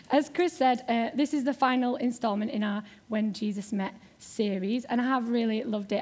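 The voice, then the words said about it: Yorkshire accent. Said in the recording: “I am from Yorkshire ... you may be getting a slightly more strong Yorkshire accent than usual”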